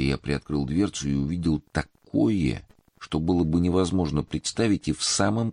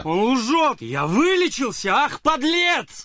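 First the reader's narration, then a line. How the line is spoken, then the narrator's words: Frantic screaming. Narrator (Russian): Истошно закричал Павел Георгиевич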